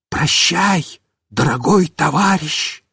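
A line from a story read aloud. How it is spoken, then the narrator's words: Whisper. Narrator (Russian): Мишка снова прошептал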